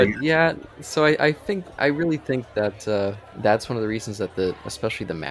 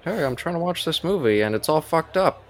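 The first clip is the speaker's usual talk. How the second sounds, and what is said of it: Imitates another person's voice, badly. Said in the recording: “My terrible George Lucas impression.”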